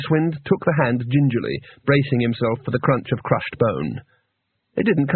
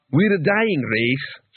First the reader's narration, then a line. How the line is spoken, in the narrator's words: said Quart, sadly